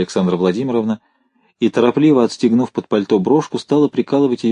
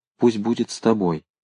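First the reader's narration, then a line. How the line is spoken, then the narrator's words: Quiet. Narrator (Russian): тихо произнесла она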